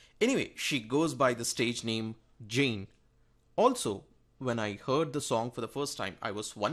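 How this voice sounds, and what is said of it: Usual voice. Nothing is said of it.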